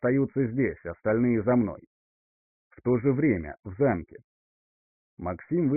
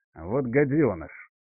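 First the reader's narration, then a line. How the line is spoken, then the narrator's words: Through gritted teeth. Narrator (Russian): сквозь зубы процедил Думбольд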